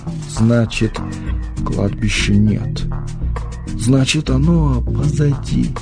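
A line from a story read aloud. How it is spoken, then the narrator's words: Incredulous whisper. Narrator (Russian): недоверчиво шептал он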